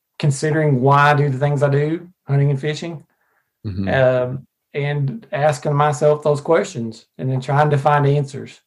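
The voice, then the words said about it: Arkansas accent. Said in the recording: “I'm from Arkansas. If you can't tell by my accent.”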